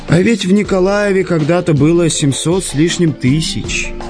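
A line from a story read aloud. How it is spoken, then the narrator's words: Sigh, bitter telling. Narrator (Russian): Швед вздохнул и с некоторой горечью поведал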